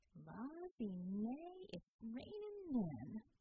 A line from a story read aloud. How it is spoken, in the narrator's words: drawled Bella